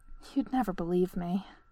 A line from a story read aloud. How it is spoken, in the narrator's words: she sighed